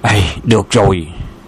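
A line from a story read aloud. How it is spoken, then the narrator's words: Relieved exclamation. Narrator (Vietnamese): Bốc Thiên Chí thở phào nhẹ nhõm thốt lên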